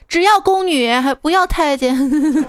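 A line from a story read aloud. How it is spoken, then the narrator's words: Very loud. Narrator (Chinese): 闺蜜超大声说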